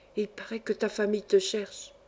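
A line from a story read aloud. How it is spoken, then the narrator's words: Half-voice, smiling. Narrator (French): à mi-voix, avec le sourire sur le visage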